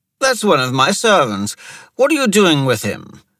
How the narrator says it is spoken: he exclaimed

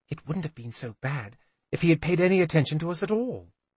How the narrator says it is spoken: Serene whispered back

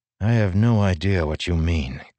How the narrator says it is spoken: Kaladin grumbled

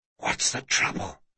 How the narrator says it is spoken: he whispered

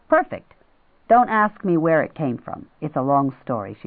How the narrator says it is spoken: she said

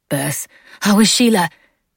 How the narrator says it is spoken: Beth blurted out

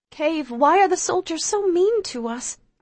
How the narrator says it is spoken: I ask, clinging even more tightly to her

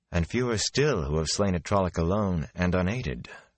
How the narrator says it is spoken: Moraine said wearily

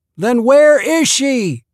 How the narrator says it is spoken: the doctor's hoarse shout

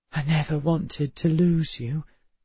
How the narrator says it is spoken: she whispered

